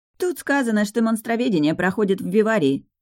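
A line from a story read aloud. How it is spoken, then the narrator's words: Snorting, wry. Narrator (Russian): хмыкнула Лина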